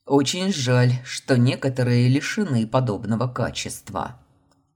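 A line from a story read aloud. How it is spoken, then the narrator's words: Growled. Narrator (Russian): рыкнул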